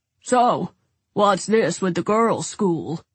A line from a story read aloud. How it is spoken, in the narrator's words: He asked in a deep voice with a definite transatlantic accent